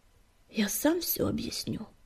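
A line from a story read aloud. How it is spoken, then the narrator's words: Tired announcement. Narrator (Russian): устало объявил он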